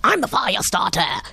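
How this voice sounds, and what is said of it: Imitates another person's voice. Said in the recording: “A great impression.”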